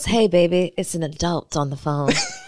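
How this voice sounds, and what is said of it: Put-on grown and sexy voice. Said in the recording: “Is that what is this accent? ... That's my grown and sexy voice.”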